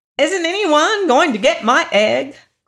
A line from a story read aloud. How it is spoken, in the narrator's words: cried the hen in great excitement